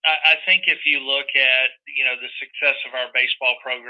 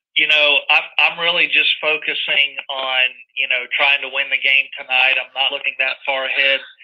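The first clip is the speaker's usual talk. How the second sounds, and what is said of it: Impression of Cliff Godwin. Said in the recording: “good Cliff Godwin impersonation”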